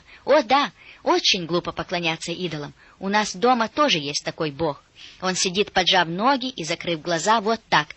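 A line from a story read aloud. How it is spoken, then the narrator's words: Girl exclaiming. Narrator (Russian): девочка воскликнула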